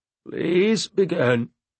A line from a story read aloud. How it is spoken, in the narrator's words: he said to me in his froggy voice